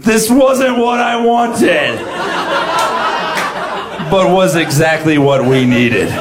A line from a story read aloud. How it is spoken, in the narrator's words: she just screamed